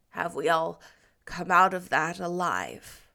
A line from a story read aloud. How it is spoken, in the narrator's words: she asked solemnly